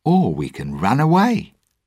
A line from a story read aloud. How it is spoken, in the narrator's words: Jack answered brightly